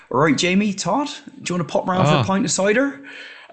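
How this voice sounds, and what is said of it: Imitated Bristolian accent. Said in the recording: “you always sound happy in a Bristolian accent”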